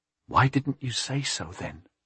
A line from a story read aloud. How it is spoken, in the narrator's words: she whispered